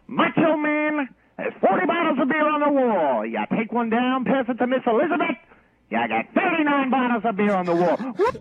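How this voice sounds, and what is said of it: Ric Flair impersonation. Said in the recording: “my Ric Flair impersonation”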